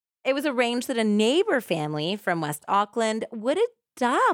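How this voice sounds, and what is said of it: Usual voice. Nothing is said of it.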